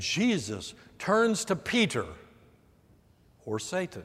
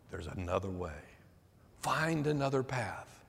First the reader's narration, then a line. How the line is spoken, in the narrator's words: Satan is continually whispering in our ear